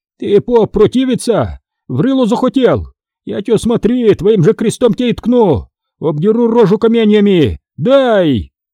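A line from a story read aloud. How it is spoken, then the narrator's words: Booming yell. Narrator (Russian): Князь зычно завопил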